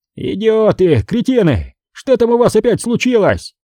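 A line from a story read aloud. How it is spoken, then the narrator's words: Yelling. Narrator (Russian): сразу заорал он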